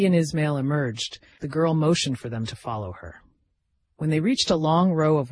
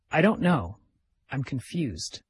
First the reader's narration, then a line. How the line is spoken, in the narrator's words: said